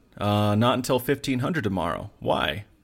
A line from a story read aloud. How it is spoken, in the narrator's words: Ho chuckled